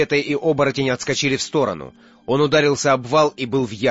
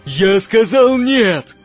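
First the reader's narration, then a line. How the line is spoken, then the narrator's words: Fierce man shouting. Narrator (Russian): закричал мужчина со зверским лицом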